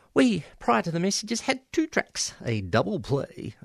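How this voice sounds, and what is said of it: Mock commercial radio announcer voice. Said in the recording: “in my best commercial radio voice.”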